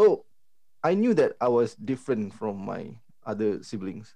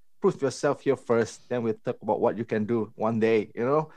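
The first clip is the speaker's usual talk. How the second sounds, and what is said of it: Put-on Irish accent. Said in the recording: “What accent is that? Irish accent? ... Yeah, that's an Irish accent”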